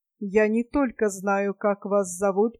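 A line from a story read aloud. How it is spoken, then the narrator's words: Sepulchral voice, cloaked stranger. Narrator (Russian): продолжал незнакомец в плаще своим замогильным голосом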